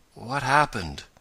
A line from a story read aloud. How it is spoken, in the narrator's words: he asked faintly, as he opened his eyes